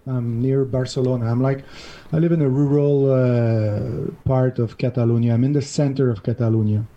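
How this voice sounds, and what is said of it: Montreal accent. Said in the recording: “I'm from Montreal originally. This is where my $2 accent is coming from.”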